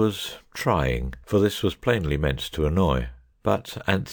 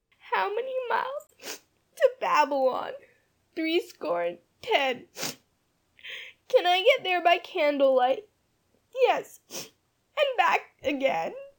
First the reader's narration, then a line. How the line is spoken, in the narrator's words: Far away, up the stairs, a voice could be heard singing, brokenly but still defiantly